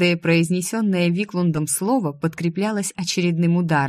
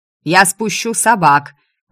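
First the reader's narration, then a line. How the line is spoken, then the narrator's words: Shouting from behind door. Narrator (Russian): прокричали из-за двери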